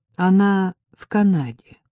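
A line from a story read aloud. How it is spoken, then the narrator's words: Calm answer. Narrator (Russian): ответил спокойно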